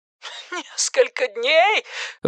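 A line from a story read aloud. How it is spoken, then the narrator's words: Breathless exhale. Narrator (Russian): выдохнула Энни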